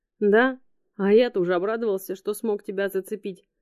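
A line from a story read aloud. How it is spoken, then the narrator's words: Glum. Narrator (Russian): уныло ответил фрикаделька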